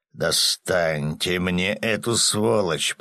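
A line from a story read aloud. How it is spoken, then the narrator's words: Growl. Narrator (Russian): прорычал Ярый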